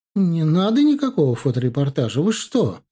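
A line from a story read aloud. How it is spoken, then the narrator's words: Exclaiming. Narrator (Russian): воскликнула она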